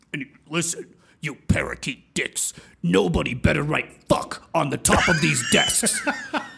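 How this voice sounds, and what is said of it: Very deep booming voice. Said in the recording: “gigantic man ... he had this super deep voice.”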